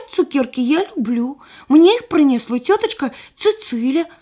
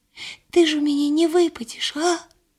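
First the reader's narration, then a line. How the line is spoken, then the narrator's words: Sad question. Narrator (Belarusian): сумна пыталася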